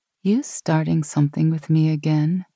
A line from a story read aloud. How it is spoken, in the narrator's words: she asked playfully